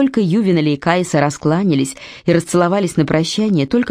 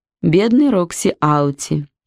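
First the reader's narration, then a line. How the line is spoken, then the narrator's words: Sighing. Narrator (Russian): вздохнула Кайса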